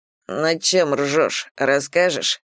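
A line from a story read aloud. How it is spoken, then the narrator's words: Grumble. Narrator (Russian): пробурчал Кирилл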